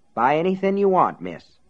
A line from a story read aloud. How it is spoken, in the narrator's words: Aunt Evie said